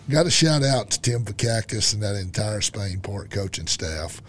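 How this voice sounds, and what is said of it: Slightly hoarse voice. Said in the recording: “Have to ignore my voice. I'm a little hoarse”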